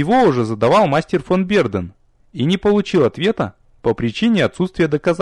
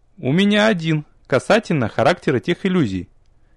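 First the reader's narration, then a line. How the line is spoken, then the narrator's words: Quiet cough. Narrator (Russian): Негромко кашлянула графиня Деревье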